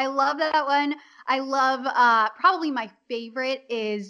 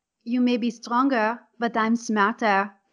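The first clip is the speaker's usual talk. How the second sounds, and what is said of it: Character voice with put-on accent. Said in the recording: “you could just drop into ... the accent”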